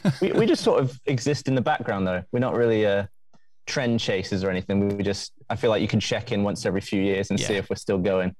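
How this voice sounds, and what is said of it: Southern English accent. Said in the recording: “your accent, I would say, if I was a betting man, that you are from less than 30 miles from where I live. I live near Southampton.”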